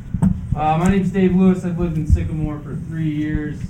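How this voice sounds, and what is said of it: Put-on teacher voice. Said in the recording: “I'm going to practice using my teacher voice.”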